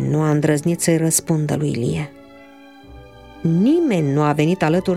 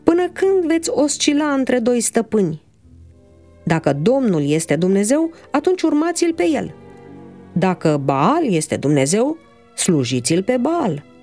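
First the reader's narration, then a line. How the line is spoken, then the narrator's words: Resounding shout. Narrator (Romanian): Cu o voce răsunătoare, Ilie a strigat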